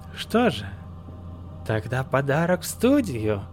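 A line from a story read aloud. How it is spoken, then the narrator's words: Creaky voice. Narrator (Russian): Проскрипел хохотуша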